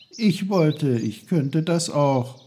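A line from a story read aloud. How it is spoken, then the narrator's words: Sad. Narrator (German): sagte Peter traurig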